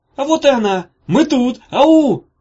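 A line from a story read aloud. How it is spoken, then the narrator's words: Yelled at full volume. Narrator (Russian): заорала она на всю мощь легких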